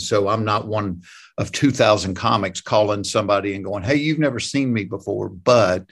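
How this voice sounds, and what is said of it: Strong Southern US accent. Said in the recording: “lose that stupid accent you got ... I ain't changed the way I talk ... you're nothing but an old redneck”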